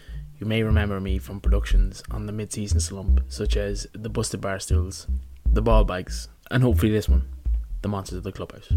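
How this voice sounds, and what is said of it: Troy McClure impression. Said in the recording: “my best Troy McClure impression”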